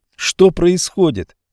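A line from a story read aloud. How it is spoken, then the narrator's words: Boy shouting. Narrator (Russian): закричал мальчик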